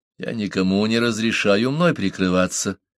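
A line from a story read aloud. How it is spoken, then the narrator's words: Cold objection. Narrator (Russian): холодно возразил Парсел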